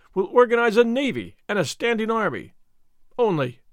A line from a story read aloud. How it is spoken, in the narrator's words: he cried, in free enthusiasm